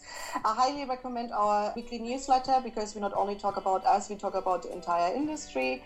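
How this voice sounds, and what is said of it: Berlin-accented English. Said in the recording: “of course with a K because it's Berlin, and with my accent”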